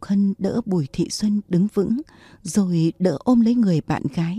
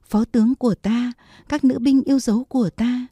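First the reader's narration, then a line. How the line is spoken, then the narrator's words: Faltering cry. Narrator (Vietnamese): Bùi Thị Xuân loạng choạng muốn ngã kêu lên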